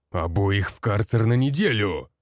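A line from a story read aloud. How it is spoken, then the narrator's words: Barked command. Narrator (Russian): рявкнул он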